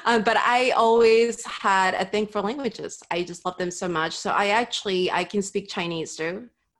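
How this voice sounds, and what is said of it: Peruvian accent in English. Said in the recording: “I actually learned English when I was really young in my native Peru. ... I still have an accent, but it's a very unique accent”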